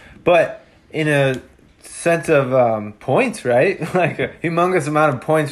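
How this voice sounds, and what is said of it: Usual voice. Nothing is said of it.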